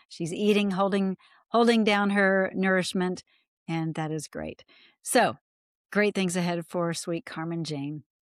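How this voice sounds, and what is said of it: Smiling, happy-sounding voice. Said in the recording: “you can tell by the smile on my face, and I'm sure you can just hear the smile in my voice.”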